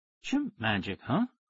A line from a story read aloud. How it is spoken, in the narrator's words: He said softly